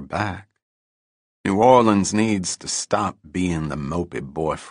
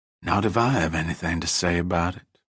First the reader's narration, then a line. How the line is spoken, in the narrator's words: she murmured